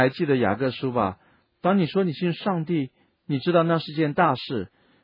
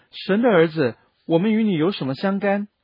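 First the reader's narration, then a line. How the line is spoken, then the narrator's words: Shouting. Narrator (Chinese): 他们喊着说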